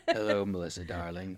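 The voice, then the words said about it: Put-on British accent. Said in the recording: “Oh, much better. I like the British accent.”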